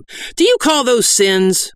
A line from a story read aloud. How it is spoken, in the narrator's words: cried